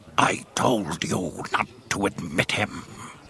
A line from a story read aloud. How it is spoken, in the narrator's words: the gangster slug growled in Huttese